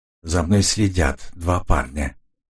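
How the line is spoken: Quiet. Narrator (Russian): тихо сказал Мартин

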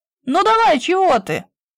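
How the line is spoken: Shout after surfacing. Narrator (Russian): вынырнув, крикнул он

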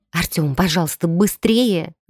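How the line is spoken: Loud whisper. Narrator (Russian): громко зашептала я

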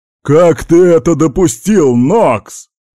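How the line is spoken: Roar. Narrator (Russian): взревел Даун

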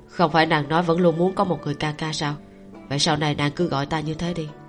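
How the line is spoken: Smiling speech. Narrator (Vietnamese): Cảnh Nhật mỉm cười, nói

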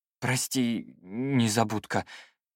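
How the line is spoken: Strained embarrassed apology. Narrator (Russian): выдавил я, чувствуя себя идиотом в квадрате

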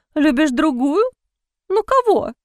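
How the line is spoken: Squeaking. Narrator (Russian): пискнула она

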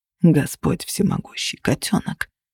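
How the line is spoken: Mutter. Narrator (Russian): пробормотал Кости

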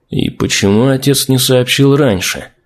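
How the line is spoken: Absent-minded mutter. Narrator (Russian): Не слыша вопроса, пробормотал Торвин

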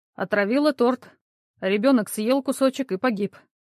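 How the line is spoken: Gloomy. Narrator (Russian): мрачно ответил Андрей

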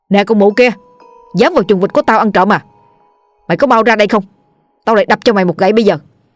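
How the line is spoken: Loud angry shout. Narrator (Vietnamese): Lúc này Đại quát lớn

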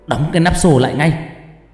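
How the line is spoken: Shouting. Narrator (Vietnamese): Thầy Lộc hét lên

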